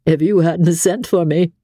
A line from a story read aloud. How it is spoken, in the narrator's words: added with a laugh